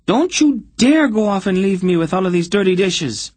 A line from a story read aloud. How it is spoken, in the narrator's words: screamed after him